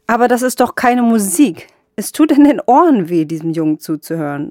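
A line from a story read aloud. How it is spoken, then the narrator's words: Man calling out. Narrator (German): rief ein Mann mit einer Geige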